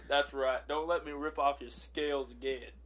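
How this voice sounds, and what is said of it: Put-on character accent. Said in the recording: “my accent's going nuts”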